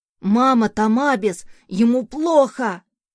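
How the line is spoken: Child shouting. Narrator (Russian): закричал сын

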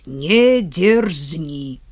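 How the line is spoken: Very stern. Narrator (Russian): Так все говорил и очень строго

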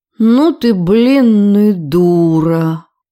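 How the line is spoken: Drawl. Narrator (Russian): протянула она

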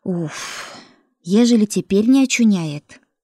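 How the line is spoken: Breathless, snuffling exhale. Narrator (Russian): выдохнула, из воды выползая с сопением

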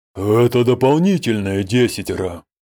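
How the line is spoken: Through gritted teeth. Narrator (Russian): процедил Доскамедаль

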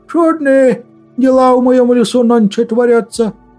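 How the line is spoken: Amazed booming wood spirit. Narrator (Russian): прогудел леший, еще больше изумившись

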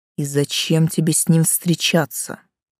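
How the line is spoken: Wood spirit grumbling. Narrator (Russian): проворчал Леший

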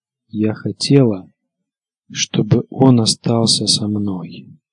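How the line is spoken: Quiet. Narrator (Russian): сказала негромко леди Старк

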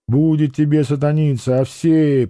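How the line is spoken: Weary speech. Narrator (Russian): проговорил цыган устало

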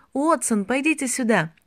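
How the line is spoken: Shouted. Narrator (Russian): Белл закричал в него

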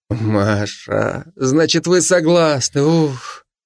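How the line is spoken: Relieved exhale. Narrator (Russian): Коротков выдохнул с явным облегчением

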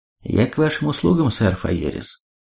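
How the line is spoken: Even tone. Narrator (Russian): Гнадобис ровным тоном произнес

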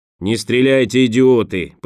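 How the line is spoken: Commanding roar. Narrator (Russian): повелительно проревел голос

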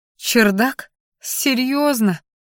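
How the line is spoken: Groan. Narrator (Russian): простонала я

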